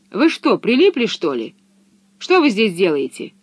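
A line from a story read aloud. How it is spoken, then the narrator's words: Angry question. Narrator (Russian): зло спросила она наконец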